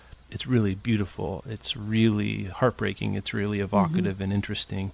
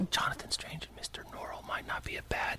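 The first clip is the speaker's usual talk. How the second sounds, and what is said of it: Whispering. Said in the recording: “I don't know why I'm whispering.”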